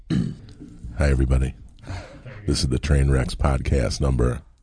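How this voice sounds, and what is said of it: Put-on sexy voice. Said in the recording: “in the sexy voice”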